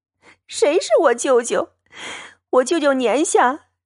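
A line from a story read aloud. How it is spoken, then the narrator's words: Angry sobbing. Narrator (Chinese): 探春 已气得脸白气噎，抽抽噎噎的，一面哭一面问道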